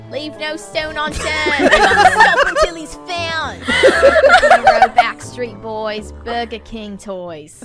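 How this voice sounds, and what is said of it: Put-on Australian orc voice. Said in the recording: “You did a whole episode in that tone ... that voice ... I'll just be an Australian orc the entire time”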